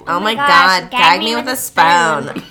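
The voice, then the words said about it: Valley Girl voice. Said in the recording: “in a Valley Girl voice”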